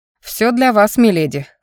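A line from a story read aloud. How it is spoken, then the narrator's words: Magister's snort. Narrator (Russian): хмыкнул магистр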